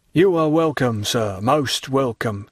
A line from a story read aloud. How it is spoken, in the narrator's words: repeated the astonished Caderousse in his blandest tones